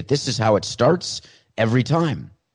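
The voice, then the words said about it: Imitates another person's voice. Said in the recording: “my best Morgan Freeman imitation”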